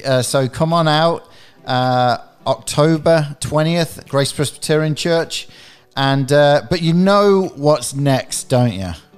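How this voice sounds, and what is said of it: English accent. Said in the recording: “obviously you can tell with my accent, I am not from around these parts originally... I'm originally from England”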